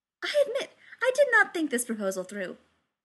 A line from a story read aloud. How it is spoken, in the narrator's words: she admitted, far too cheerfully